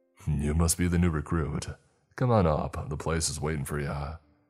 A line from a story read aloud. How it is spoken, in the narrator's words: he said